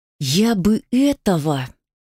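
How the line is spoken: Hissed. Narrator (Russian): зашипела только-только успокоившаяся Светка

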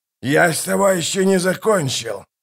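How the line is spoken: Hissing. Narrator (Russian): прошипел Калор

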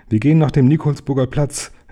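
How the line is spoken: Professor calling out. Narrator (German): rief der Professor

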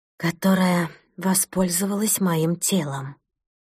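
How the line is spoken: Quiet finish. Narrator (Russian): тихо закончила Маша

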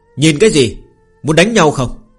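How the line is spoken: Aggressive shout. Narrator (Vietnamese): Phương Hành hung hăng quát lên

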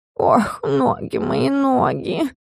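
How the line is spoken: Groaning. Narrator (Russian): стонал Стикс

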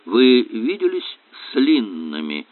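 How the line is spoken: Strange-toned question. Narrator (Russian): каким-то странным тоном спросил он

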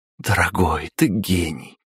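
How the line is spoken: Breathless. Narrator (Russian): выдохнула

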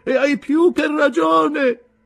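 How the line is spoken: Shouted. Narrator (Italian): gridò

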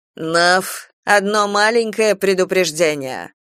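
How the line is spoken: Rough speech. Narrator (Russian): Агламена грубо сказала

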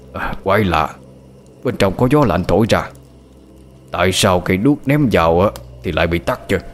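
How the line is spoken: Muttering. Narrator (Vietnamese): Ông Thật ở bên ngoài lẩm bẩm nói

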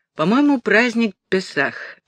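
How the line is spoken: Thoughtful reply. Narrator (Russian): задумчиво ответил Натаниэль

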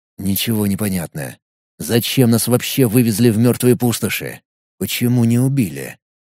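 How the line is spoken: Fast, anxious speech. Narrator (Russian): Ника быстро проговорила

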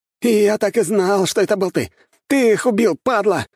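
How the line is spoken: Spluttering furious shout. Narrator (Russian): брызгая слюной, закричал Андрей

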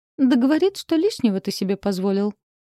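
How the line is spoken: Chuckling. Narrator (Russian): хохотнула Элли

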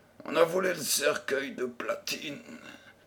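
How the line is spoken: Old man's dejected murmur. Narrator (French): murmura le vieillard avec accablement

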